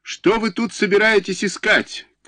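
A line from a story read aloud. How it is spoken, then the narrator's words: Shouting right in ear. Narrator (Russian): крикнула мне в самое ухо Воропаева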